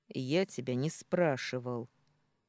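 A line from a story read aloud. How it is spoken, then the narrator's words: Rude. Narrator (Russian): грубо произнес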